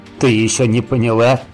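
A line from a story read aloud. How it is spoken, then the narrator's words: Chuckling. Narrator (Russian): хохотнул Саныч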